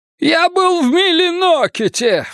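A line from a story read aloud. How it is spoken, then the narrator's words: Shrieked. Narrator (Russian): взвизгнул Элькатук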